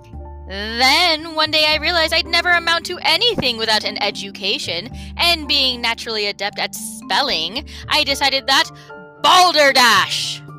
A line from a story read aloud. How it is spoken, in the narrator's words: shouted a booming voice